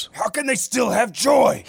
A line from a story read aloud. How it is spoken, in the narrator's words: hissed